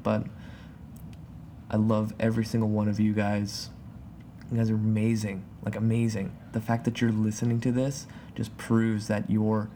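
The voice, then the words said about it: Calm, relaxed speaking voice. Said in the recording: “you can even tell in my voice, I'm kind of just, like, calm. And not jumping all over the place.”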